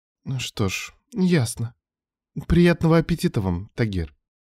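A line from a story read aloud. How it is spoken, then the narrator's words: Soft, slightly hurt. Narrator (Russian): Говорю мягко, немного обиженно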